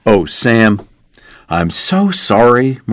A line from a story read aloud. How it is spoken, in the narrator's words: Marshall said